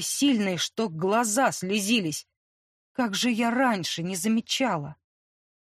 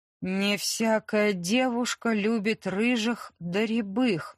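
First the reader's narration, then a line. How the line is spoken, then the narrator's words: Plain. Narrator (Russian): сказала торговка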